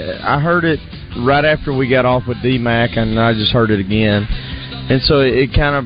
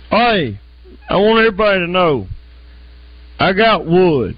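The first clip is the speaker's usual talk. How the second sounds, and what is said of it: Impression of D-Mac. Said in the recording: “doing an impression of D-Mac”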